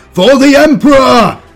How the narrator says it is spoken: bellowed

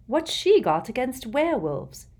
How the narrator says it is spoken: said Hermione angrily

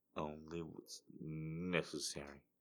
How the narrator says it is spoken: I simply shrugged drunkenly and slurred

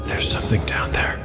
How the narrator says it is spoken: whispered Umura

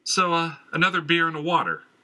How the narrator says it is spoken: the barmaid yelled

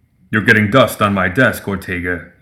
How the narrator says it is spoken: he rumbled

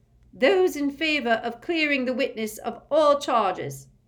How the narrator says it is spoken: said Madame Bone's booming voice

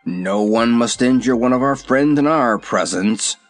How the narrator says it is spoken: growled the lion

